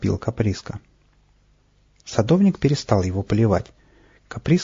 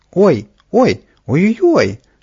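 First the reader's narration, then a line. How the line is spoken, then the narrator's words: Yelling from above. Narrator (Russian): завопил наверху Каприска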